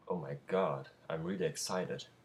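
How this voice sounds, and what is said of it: Excited voice. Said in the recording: “I can hear it in your voice already.”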